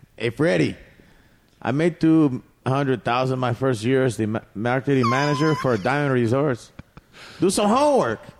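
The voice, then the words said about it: Put-on Mexican accent. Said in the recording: “Do a Mexican accent ... I'll do a Mexican accent ... It's an educated Mexican”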